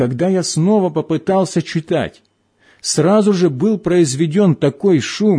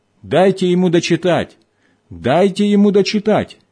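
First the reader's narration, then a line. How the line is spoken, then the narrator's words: Loud shout. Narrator (Russian): председатель громко крикнул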